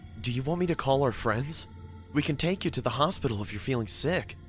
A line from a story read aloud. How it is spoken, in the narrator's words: I said in a worried voice